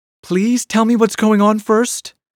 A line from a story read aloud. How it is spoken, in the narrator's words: pleaded Polly